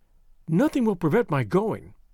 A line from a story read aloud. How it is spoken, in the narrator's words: she said firmly